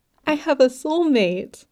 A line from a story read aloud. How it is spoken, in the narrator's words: giggled